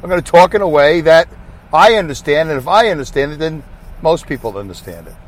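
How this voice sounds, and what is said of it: Brooklyn New York accent. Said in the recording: “my accent because I'm from Brooklyn, New York”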